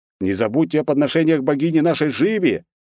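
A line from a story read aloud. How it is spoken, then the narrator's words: Shouting to crowd. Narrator (Russian): крикнул я суетящемуся народу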